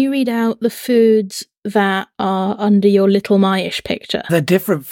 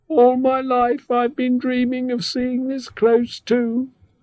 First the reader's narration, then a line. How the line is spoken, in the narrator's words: added the squeak with a sigh